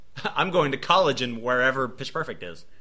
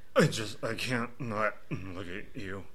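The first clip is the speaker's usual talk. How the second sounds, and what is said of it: Imitates another person's voice. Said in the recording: “my Dane DeHaan impression”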